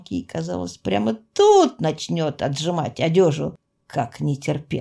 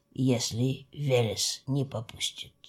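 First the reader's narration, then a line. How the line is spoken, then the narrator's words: Very quiet. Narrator (Russian): добавил он совсем тихо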